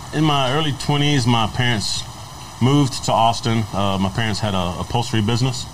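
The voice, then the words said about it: Louisiana regional accent. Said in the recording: “by the accent, you're from a little east of Austin?”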